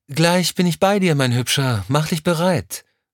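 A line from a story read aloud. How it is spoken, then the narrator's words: Called from another room. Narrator (German): rief es aus dem Badezimmer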